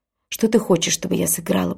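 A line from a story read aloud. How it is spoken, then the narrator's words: Whispered. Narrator (Russian): прошептала она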